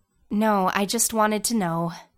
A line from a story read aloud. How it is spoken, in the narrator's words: she sighed